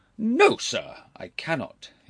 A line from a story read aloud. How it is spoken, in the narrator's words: his uncle answered sharply